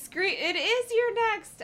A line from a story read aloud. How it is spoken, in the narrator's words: I screamed